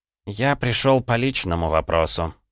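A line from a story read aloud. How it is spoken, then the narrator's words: Sighing. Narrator (Russian): вздохнул бывший вор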